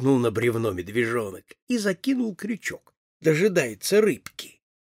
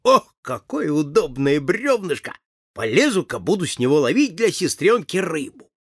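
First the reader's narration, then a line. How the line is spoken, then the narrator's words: Laughing speech. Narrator (Russian): засмеялся и сказал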